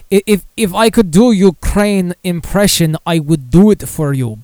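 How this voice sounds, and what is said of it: Put-on Russian-sounding accent. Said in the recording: “my impression probably sound more Russian, like Yakov Smirnov”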